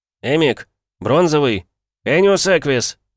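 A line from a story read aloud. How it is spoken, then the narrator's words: Panicked bark. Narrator (Russian): Почти в панике рявкнул я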